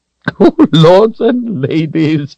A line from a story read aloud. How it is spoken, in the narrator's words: the queen said with a chuckle